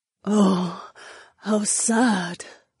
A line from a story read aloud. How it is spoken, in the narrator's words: Jessamine murmured, and I saw her deep brown eyes were shining with tears